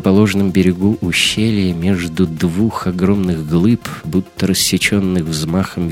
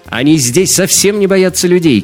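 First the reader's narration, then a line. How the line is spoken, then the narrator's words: Shout. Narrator (Russian): крикнула Мария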